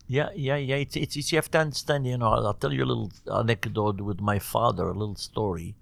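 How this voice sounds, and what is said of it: Non-native English accent. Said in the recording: “I love your English, by the way... But your accent is so beautiful.”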